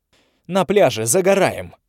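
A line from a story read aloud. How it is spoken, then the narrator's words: Sharp female bark. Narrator (Russian): рявкнула Тави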